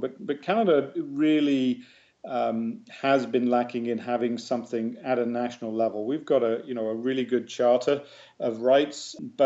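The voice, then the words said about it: English accent. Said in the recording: “I still have a proud English accent”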